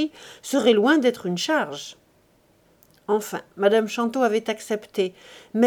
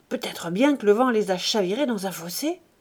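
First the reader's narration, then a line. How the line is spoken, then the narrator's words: Murmured. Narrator (French): murmura Chantot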